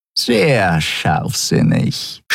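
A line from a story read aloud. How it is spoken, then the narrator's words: Purring close to the ear. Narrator (German): schnurrte Shi'ar dicht neben seinem Ohr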